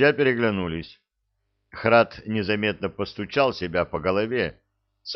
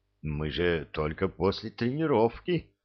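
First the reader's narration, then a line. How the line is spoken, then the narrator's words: Resigned sigh. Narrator (Russian): вздохнул Энет, понимая, что все равно никуда не деться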